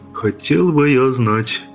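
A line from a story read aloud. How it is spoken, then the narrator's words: Grumbled in a lowered voice. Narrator (Russian): проворчал Джим, тоже понизив голос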